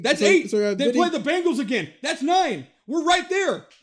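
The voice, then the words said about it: Yelling. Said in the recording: “Stop yelling.”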